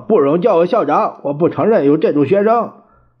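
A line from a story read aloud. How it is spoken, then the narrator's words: Loud shout. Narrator (Chinese): 蒋介石大叫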